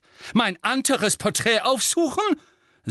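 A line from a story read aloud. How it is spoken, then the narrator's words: Shrill, feigned yawn. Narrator (German): sagte Phineas mit schriller Stimme und täuschte ein ausgiebiges Gähnen vor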